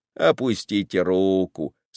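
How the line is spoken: Plain. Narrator (Russian): сказал Дрозд

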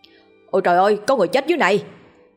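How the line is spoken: Panicked shout. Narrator (Vietnamese): có người hốt hoảng la lên

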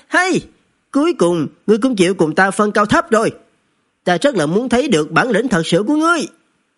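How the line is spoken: Excited loud laugh. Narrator (Vietnamese): Vô Tà, hắn càng thêm hưng phấn cười lớn

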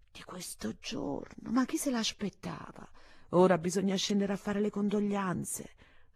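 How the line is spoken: Dazed murmur. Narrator (Italian): Finizio, come stupidi, a mormorare

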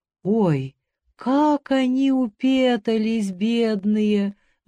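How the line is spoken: Sighing. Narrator (Russian): вздохнула хозяйка

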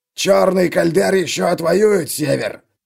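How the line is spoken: Old man growling. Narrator (Russian): прорычал старикан

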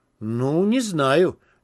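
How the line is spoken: Unsure mutter. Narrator (Russian): неуверенно буркнул Гейл

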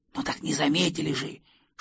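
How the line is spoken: Boar snapping in whisper. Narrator (Russian): шепотом огрызнулся кабан

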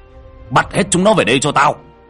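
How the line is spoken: Composed shouted order. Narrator (Vietnamese): lấy lại bình tĩnh hét lên

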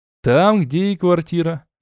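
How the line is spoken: Laughing. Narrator (Russian): рассмеялся я

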